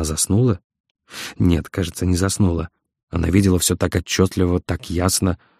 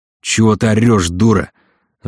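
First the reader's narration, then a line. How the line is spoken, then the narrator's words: Sudden yell. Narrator (Russian): заорал он вдруг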